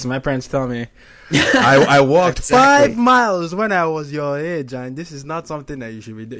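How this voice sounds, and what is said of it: Put-on Nigerian accent. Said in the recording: “that's a really good Nigerian accent”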